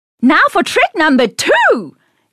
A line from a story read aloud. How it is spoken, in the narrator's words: Ned shouted